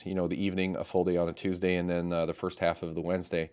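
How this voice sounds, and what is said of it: Hoarse, strained voice. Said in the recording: “I've kind of lost my voice”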